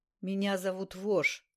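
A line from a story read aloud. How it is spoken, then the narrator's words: Hoarse rasp. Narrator (Russian): прохрипел человек на полу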